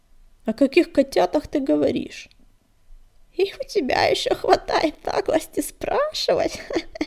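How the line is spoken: Old, hoarse guffaw. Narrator (Russian): Хрипло расхохоталась старая кошка

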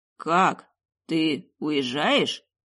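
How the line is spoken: Hoarse wheeze. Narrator (Russian): просипел он

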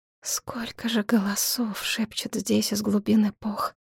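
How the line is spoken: Barely audible. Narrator (Russian): чуть слышно проговорила девушка

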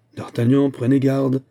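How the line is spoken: Exclaiming. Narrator (French): s'écria de Lyonne

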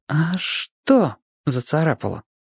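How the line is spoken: Unsure whisper. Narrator (Russian): неуверенно шепнул Чибис

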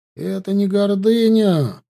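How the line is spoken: Indignant exhale. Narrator (Russian): возмутился Арди, чуть подумав, выдохнул

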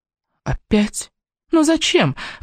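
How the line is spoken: Exclaiming. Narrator (Russian): воскликнула я

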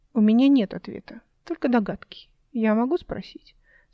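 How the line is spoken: Calm doctor. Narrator (Russian): спокойно продолжил врач

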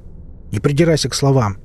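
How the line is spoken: Impatient bark. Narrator (Russian): рявкнул я, теряя терпение

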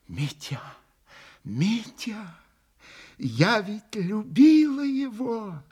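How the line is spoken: Whisper. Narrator (Russian): начала она ему шепотом

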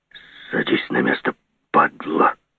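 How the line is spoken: Hiss. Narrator (Russian): Зашипел на меня чугунная рожа

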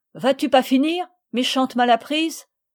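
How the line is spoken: Shouting. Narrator (French): Jeannette criant

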